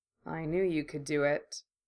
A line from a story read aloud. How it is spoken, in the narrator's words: he murmured